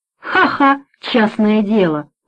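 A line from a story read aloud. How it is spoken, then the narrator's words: Laughing. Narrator (Russian): рассмеялся Обермейер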